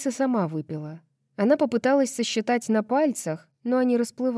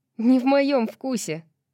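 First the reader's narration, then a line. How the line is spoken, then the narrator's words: Scoffing snort. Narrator (Russian): фыркнула Брайс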